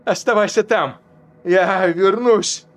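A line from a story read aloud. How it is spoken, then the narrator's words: Shouted. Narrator (Russian): крикнул он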